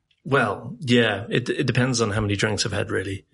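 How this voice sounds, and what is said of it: British accent, sounds distinguished. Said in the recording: “you have a British accent, which everyone th thinks you sound distinguished.”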